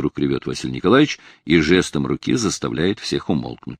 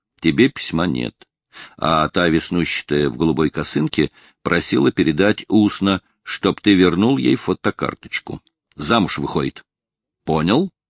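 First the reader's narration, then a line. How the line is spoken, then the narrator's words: Voices through laughter. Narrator (Russian): Сквозь смех слышатся голоса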